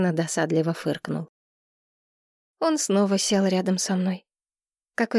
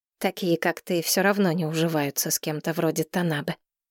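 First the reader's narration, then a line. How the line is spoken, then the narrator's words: Grumble. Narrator (Russian): пробурчал он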